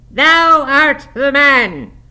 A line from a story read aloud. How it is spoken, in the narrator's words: cried Jabez, after a solemn pause